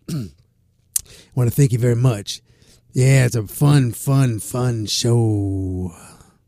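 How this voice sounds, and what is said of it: Put-on radio announcer voice. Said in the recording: “you guys like my new radio voice?”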